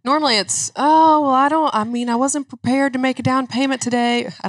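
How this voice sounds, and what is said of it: Put-on Southern accent. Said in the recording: “I don't know why I immediately go into an accent. ... You're Southern people here”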